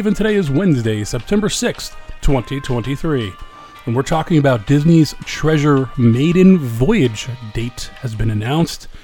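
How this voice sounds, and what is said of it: Slightly deeper voice than usual. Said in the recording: “My voice probably sounds a little bit deeper today. I have a little cold ... that's why I sound a little different”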